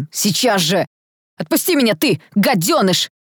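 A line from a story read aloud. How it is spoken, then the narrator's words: Man yelling. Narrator (Russian): заорал господин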